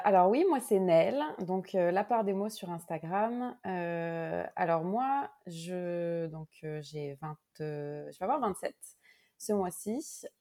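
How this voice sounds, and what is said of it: Slight mixed Québécois-French accent. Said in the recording (French): “ça se peut que vous entendiez peut-être un petit accent. Euh, un petit mélange entre un petit accent québécois et un, accent français ... pas... autant flagrant, mais il y a des mots que tu dis que qu'on dit pas ... Qu'on ne prononce pas pareil en français”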